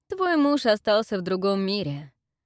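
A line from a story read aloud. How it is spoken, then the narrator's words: Villain's chuckle. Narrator (Russian): хохотнул негодяй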